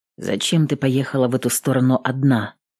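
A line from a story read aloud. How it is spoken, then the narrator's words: Quiet question. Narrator (Russian): спросил тихо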